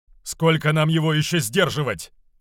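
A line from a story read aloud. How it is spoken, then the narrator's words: Shouted out. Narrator (Russian): выкрикнул Равус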